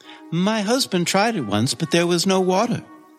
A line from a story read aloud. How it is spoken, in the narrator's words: she said sadly